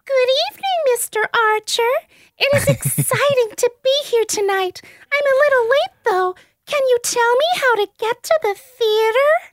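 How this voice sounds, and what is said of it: B-grade Disney princess voice. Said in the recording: “she has a voice kind of like the B-grade version of what Amy Adams did in Enchanted, like trying to do a Disney princess, kind of ends up sounding like, what's her name, Gypsy Rose Blanchard ... I love doing that voice”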